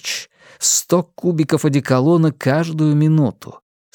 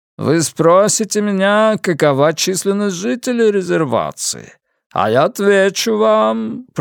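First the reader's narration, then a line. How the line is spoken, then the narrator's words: Triumphant booming drone. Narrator (Russian): прогудел торжествующе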